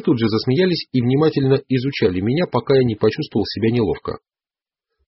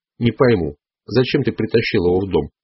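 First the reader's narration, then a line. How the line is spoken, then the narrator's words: Dry sharp tone. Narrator (Russian): сказал он сухим резким тоном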